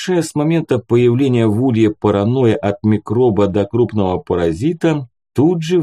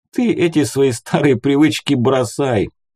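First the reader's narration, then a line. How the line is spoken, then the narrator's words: Laughing. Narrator (Russian): засмеялся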